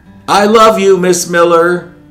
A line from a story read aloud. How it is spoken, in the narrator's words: he exclaimed, loud enough for the whole class to hear